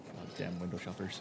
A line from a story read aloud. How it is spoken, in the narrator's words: you kind of mutter yourself